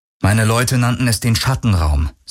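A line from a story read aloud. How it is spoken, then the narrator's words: Plain. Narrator (German): sagte er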